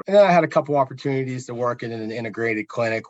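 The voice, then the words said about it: Southwestern Pennsylvania accent. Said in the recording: “my family originally being from Southwestern PA ... I never thought I had the accent, but apparently I'm wrong. ... Yeah, you got it. You got it for sure.”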